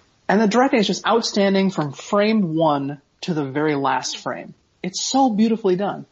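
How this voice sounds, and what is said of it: Usual voice. Nothing is said of it.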